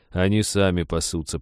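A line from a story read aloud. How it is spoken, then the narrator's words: Grumbled. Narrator (Russian): проворчал лесник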